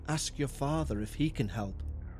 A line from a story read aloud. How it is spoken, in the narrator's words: Marjorie said in a hushed tone